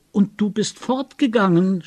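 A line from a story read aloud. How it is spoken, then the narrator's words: Shouted. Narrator (German): schrie ich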